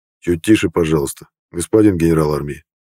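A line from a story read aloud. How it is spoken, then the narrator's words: Quiet. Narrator (Russian): негромко произнес Тобольский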